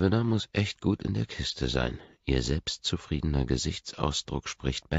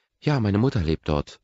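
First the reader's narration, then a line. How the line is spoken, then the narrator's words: Trembling voice. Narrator (German): antwortet mit zitternder Stimme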